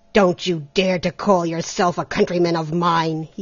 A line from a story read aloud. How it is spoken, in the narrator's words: he growled